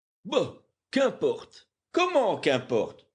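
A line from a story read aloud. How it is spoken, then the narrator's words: Exclamation. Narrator (French): s'écria James Playfair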